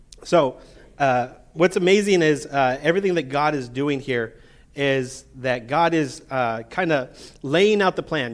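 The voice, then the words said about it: Strained, not fully recovered voice. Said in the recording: “my voice is trying to recover ... it still hasn't come back to me ... apparently hasn't fully recovered”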